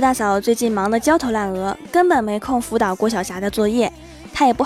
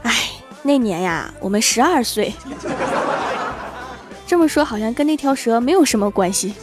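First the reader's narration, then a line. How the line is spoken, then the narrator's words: Old man sighing. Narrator (Chinese): 李爷爷叹了一口气说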